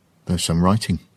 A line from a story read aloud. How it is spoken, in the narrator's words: Maggie said quietly